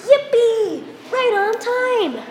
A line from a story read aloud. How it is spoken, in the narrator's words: they heard the dinner bells chime and called out together